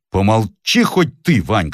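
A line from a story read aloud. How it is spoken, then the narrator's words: Stern demand. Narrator (Russian): строго потребовал Брюллов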